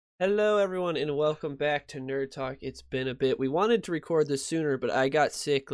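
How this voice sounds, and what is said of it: Congested, nasal voice. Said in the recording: “You can probably still hear it. My voice is still a little stopped up, still a little nasally”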